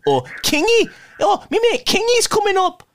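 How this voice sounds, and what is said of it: Imitates another person's voice. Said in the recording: “my impression of Dave”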